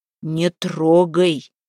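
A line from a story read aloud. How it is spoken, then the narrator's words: Stern warning. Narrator (Russian): строго предостерег Куприян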